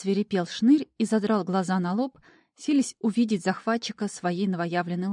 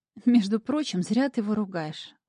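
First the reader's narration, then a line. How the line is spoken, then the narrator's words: Remark after laughing. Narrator (Russian): отсмеявшись, заметила я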